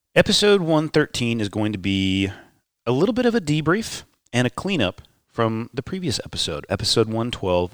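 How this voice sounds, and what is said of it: Nasal, sick-sounding voice. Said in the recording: “I'm a little bit sick. My voice sounds a little bit nasally.”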